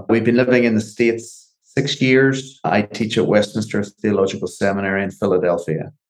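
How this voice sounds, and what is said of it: Northern Irish accent. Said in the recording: “As you can hear from our accents, we're not from around here. I hail from Belfast, Northern Ireland originally.”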